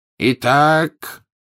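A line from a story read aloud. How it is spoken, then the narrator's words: Ringing voice. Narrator (Russian): звенящим голосом продолжал Дамблдор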